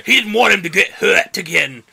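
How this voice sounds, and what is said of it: Character voice, strangely English accent. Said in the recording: “That's my Mickey voice. ... That's become a strangely English accent.”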